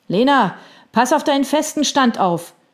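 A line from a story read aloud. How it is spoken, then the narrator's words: Someone calling from behind. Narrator (German): rief jemand schräg hinter ihr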